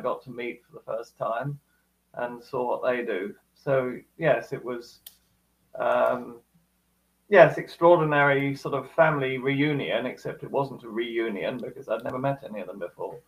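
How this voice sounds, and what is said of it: Speaks with a noticeable accent. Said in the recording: “maybe it's the accent,”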